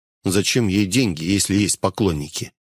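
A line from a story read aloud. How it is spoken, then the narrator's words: Quiet musing to oneself. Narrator (Russian): Я произнес это негромко, рассуждая сам с собой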